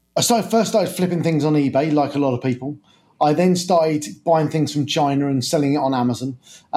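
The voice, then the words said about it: British English accent. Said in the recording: “I guess people can probably tell by the accent, you're based over in the UK”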